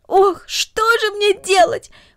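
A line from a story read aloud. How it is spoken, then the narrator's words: Exclaiming. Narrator (Russian): воскликнула Люся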